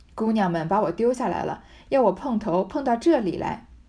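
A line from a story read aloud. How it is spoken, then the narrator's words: Hasty laughing. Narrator (Chinese): 刘姥姥忙笑道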